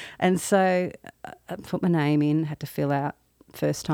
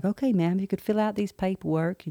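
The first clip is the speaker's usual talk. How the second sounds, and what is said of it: Put-on Southern American accent. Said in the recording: “I live in the South. That's the best accent I could do.”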